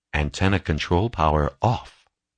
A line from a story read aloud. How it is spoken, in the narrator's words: answered Hal